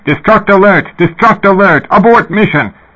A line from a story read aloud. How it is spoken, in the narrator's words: Voices yelling